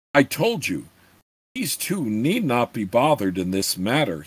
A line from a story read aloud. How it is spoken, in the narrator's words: said crossly